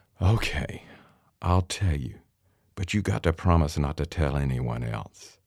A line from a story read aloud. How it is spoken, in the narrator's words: Grandmother sighed and said